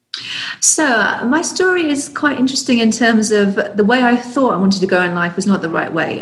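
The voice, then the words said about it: English accent. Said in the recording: “your accent, you originally from... I'm originally from the UK... with your English accent”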